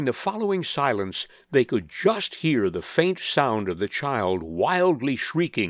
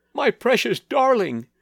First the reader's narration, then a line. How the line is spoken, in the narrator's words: wailed her mother